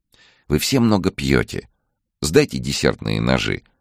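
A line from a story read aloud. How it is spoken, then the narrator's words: Affectionate cooing. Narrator (Russian): ласково проворковала Ольга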